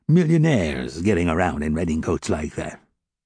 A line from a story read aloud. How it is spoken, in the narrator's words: replied old man Thénardier in a haughty tone